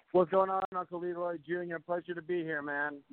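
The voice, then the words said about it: Announcer voice. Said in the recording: “you come here with this great announcer voice.”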